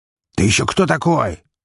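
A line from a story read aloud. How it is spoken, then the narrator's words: Angry shout, bandit. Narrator (Russian): злобно выкрикнул бандит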